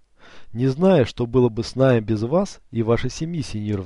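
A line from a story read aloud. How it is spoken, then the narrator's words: Sighing mother. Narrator (Russian): вздохнула мать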